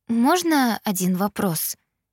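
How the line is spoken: Timid question. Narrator (Russian): Робко уточнила

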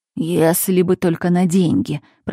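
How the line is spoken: Moan. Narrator (Russian): простонал он

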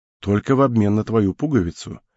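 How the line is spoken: Soft reply. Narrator (Russian): мягко ответил тот

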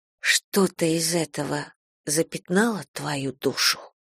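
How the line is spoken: Whispered. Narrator (Russian): прошептала я

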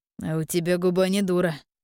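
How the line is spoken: Blacksmith's snort. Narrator (Russian): хмыкнул кузнец

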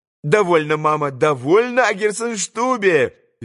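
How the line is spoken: Cheerful laughing voice. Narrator (Russian): весело смеялась Лиза

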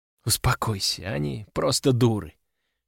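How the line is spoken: Whisper in ear. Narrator (Russian): шепнула она мне на ухо

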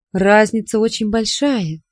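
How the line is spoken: Calm statement. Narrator (Russian): спокойно сказала я

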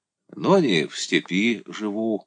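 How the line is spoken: Toothless mumble. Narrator (Russian): прошамкал он

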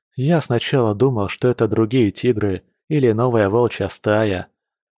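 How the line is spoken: Said after deep sigh. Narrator (Russian): глубоко вздохнув, сказал Арс

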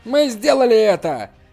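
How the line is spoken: Crowd shouting festively. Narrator (Russian): Все закричали, как на празднике

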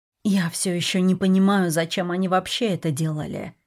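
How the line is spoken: Hoarse. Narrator (Russian): хрипло сказала я

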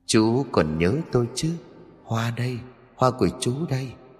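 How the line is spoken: Young woman's soft whisper. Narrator (Vietnamese): một cô gái trẻ khẽ thì thầm

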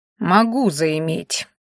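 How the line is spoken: Cold remark. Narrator (Russian): холодно заметил Ранхаш

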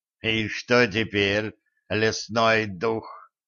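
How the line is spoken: Contemptuous snort, warrior. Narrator (Russian): презрительно хмыкнул воин

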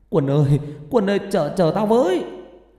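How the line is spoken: Shouting, calling out. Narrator (Vietnamese): hét lên gọi tôi

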